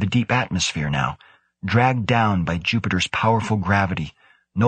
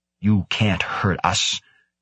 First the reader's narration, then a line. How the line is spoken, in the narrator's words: he snarled silently